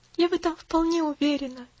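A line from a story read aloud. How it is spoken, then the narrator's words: Sigh. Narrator (Russian): вздохнула Пуляна, глаза ее светились тихой радостью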